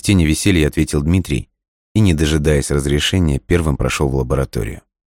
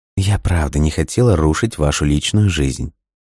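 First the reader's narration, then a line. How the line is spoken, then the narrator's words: Exaggeratedly sweet. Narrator (Russian): нарочито ласково произнесла она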